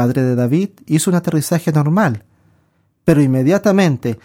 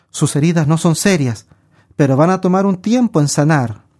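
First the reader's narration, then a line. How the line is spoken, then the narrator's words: Plain. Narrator (Spanish): les dijo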